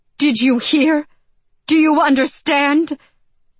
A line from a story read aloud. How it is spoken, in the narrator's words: cried